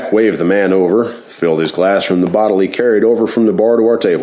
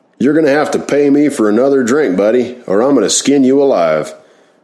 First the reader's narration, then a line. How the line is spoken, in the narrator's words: one customer yelled out to Jack